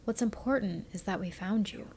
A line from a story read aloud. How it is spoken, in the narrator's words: she said in a gentle voice